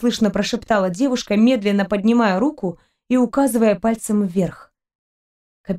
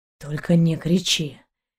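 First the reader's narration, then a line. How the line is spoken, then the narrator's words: Barely audible whisper. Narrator (Russian): еле слышно прошептал Далок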